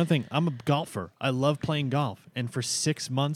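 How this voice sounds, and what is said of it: Usual voice. Nothing is said of it.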